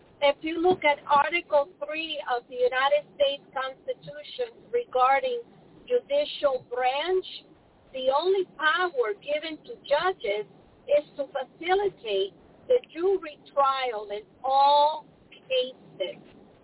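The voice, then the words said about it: Spanish accent. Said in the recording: “there goes my Spanish accent”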